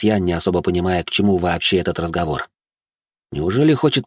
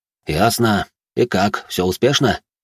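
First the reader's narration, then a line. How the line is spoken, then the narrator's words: Plain question. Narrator (Russian): спросил Бурже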